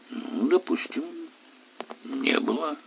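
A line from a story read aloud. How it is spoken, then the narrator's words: Uncertain. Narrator (Russian): ответил он как-то неуверенно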